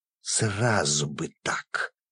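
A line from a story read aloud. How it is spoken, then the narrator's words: Growl. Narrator (Russian): прорычала она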